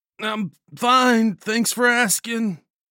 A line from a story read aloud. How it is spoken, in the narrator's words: Bomber groaned